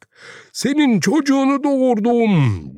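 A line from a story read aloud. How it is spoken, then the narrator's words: Shouting. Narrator (Turkish): diye haykırdı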